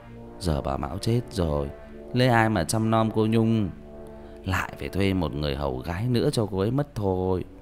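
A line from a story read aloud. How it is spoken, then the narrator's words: Quiet sigh. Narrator (Vietnamese): Hầu Lý thầm thở dài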